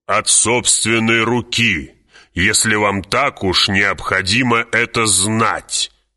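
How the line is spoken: Snapping retort. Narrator (Russian): огрызнулся барон

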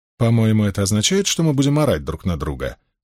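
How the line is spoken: Dry remark. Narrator (Russian): сухо заметила Суан

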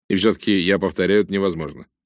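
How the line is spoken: Plain. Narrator (Russian): сказал Рейс

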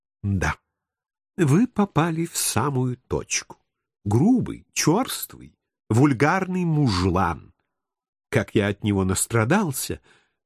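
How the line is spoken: Affected confiding whisper. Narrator (Russian): манерно прошептал я, доверительно наклонившись к ее уху

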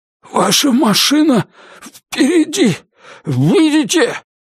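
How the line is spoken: Hoarse wheeze. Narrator (Russian): прохрипел Элтон

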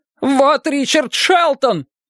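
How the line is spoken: Shouted. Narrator (Russian): крикнул он

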